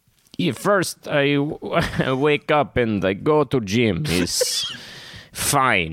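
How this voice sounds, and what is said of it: Put-on Russian accent. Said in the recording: “You're speaking English in a Russian accent.”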